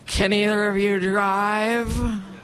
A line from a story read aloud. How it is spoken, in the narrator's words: With seriously slurred speech, he said